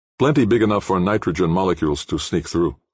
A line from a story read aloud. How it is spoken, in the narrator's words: said Toshio